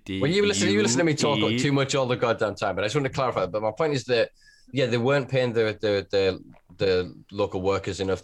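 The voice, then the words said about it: Northern English accent. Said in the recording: “I've got a northern accent”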